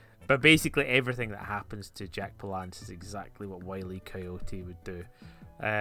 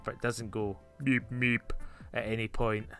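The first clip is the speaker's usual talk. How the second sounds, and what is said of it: Arnold Schwarzenegger impression. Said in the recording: “That was my Arnold Schwarzenegger accent. ... Very good.”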